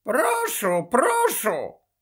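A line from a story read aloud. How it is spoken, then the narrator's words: Very high, hoarse voice. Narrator (Ukrainian): відповів Додж дуже високим, хриплим голосом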